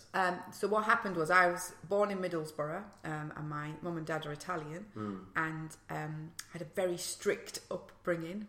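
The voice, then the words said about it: Northeast English accent. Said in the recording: “probably picked up my accents from the northeast”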